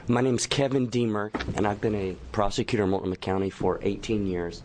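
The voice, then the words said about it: Hoarse, strained voice. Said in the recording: “Pardon me, losing my voice here.”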